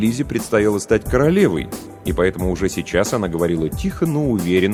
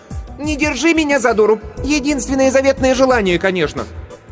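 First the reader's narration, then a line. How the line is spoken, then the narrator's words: Undignified shout. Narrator (Russian): Кирстен, немало не заботясь о монаршем достоинстве, закричала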